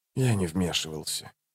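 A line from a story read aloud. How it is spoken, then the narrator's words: Quiet. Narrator (Russian): тихо проговорил престол тени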